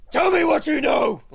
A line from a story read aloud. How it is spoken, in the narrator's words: scream in his face